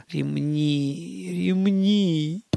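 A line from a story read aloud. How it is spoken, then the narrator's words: Moaning. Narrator (Russian): простонал Гарин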